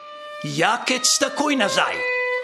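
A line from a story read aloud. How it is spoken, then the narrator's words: Calling out. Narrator (Slovenian): zaklical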